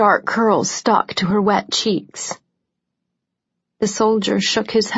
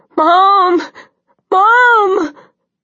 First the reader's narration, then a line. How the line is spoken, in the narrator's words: She was crying, still yelling